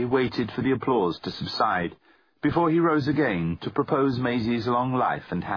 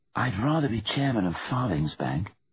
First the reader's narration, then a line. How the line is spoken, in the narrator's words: Seb whispered to his Aunt Grace